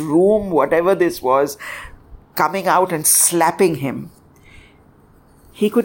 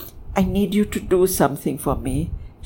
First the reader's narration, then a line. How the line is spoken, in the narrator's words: whispered